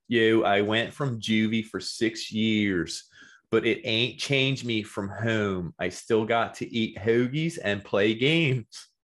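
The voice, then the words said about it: Put-on Philadelphia accent. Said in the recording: “I was going to read it in a Philly accent”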